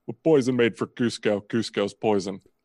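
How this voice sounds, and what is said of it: Impression of Kronk from Emperor's New Groove. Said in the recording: “I can do Kronk from Emperor's New Groove pretty well.”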